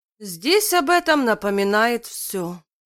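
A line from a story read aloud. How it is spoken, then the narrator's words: Weary. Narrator (Russian): устало произнес Ник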